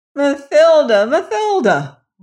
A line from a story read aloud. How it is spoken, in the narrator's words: wailed Peter